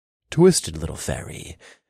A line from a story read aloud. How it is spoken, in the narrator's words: muttered